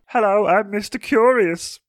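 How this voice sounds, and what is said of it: Put-on character voice. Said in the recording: “Good voice you've got. It's not a generic at all.”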